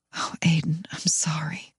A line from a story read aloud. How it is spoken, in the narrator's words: I whisper